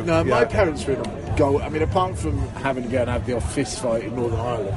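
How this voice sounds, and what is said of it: Generic British army accent, Scottish tinge. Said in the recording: “Scottish ... I couldn't place the accent. Clearly, you're an Aberdonian. ... if you listen carefully to my accent, you'll realise that it's parachute regiment ... Ended up with a generic British army accent.”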